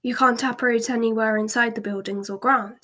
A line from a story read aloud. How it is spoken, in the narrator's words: said Harry quickly